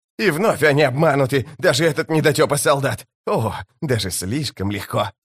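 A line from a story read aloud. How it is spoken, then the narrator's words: Hissing. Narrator (Russian): Зашипев, Крокус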